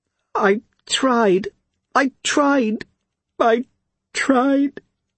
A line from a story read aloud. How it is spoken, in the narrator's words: Suri managed in between sobs